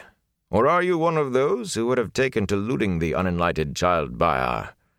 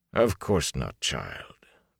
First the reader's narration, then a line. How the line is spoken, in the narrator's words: Bornhold said sadly